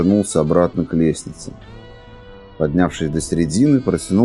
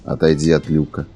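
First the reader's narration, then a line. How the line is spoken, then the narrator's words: Calm command. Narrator (Russian): спокойно велел стрелок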